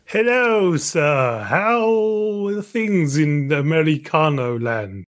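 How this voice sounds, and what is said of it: Fake American accent. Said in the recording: “I really, really like your pseudo American accent. ... American. I don't know what that was. That was weird.”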